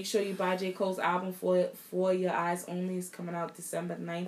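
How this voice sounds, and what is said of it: Deep voice from a cold. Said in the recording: “I got a cold. I know my voice is deep, but this time it's a little bit deeper. ... she always be sounding manly on the pod ... she giving y'all a little Gerald Levert right now”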